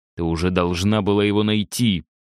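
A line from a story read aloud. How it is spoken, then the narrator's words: Hiss. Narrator (Russian): прошипел Витя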